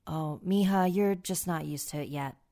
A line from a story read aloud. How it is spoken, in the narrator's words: my dad said